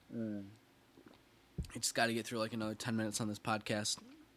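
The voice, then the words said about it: Strained, failing voice. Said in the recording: “My voice is really starting to go downhill here.”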